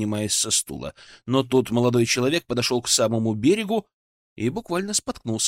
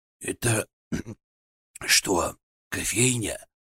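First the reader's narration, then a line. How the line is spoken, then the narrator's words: Hoarse sleepy question. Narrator (Russian): хриплым сонным голосом спросил он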